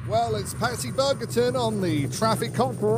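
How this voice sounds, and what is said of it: Hard-to-place put-on accent. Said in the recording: “you love his accent, don't you ... I love the accent, but I can never place it”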